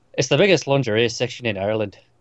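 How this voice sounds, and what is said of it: Attempted Irish accent. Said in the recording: “try and do an Irish accent ... This is going to go atrociously now.”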